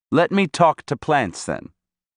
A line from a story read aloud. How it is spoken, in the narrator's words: I said